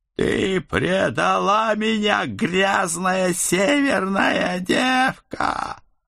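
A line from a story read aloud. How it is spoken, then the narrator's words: Hysterical howl. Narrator (Russian): Истерично взвыл кто-то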